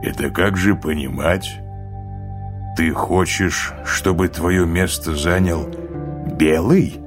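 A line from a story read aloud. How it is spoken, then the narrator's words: Cold. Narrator (Russian): холодно спросил Тис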